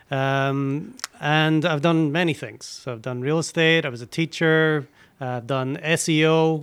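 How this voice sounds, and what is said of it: Slight Scottish accent. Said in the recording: “I got a little bit of an accent here. I've been from Scotland originally”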